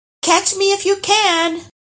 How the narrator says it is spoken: yelling

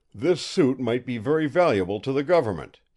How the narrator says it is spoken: he exclaimed to Eva

